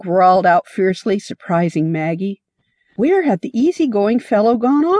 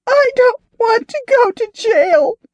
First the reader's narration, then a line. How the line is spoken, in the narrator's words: the girl wailed